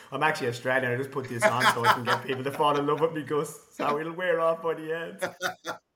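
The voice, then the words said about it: Irish accent. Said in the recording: “I love your accent, mate. Like, hard not to fall in love with the Irish accent.”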